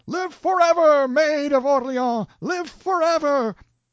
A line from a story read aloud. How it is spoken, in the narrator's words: battalion after battalion of our victorious army wildly cheering, and they shouted